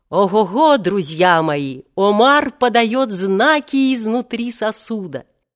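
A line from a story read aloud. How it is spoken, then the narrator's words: Joyful laughing. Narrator (Russian): радостно захохотал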